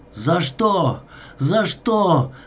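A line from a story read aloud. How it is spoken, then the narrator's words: Desperate shout. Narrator (Russian): закричал он, едва удерживаясь на голом крутом обрыве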